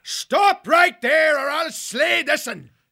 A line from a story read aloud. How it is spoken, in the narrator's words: bellowed